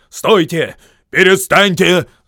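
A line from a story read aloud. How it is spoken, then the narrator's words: Shouting. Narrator (Russian): закричал Торин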